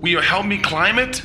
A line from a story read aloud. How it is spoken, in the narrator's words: he called out again